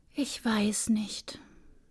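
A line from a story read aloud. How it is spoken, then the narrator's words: Composed, quiet. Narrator (German): Alexia atmete tief durch, besann sich und sagte mit leiser Stimme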